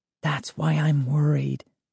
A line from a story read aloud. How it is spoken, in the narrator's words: Sari whispered